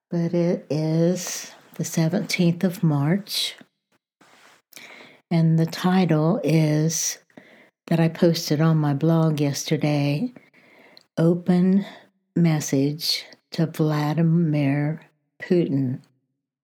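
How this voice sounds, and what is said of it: Slightly froggy, hoarse voice. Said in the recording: “My voice is a little froggy this morning”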